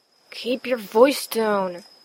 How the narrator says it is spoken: his friend hissed

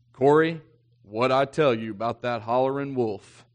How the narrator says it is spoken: my grandpa says, in his best Southern English

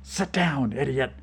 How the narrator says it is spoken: Vlad hissed

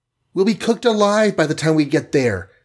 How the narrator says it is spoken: gasped the Wasp, her skin red from heat

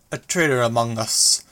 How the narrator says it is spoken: a young man spoke, his voice badly accented

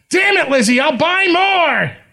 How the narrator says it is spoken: he shouts

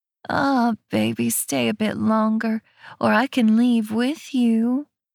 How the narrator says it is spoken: she purrs

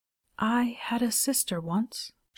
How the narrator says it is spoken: she whispered

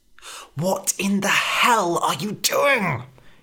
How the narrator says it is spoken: hissed Red

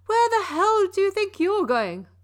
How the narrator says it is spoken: Coach yelled

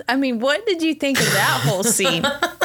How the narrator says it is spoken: I laughed

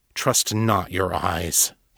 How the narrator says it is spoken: he growled

